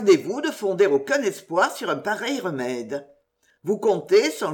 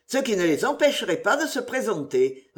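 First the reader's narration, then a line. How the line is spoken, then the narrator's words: Curt reply. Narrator (French): reprit sèchement Sir Patrick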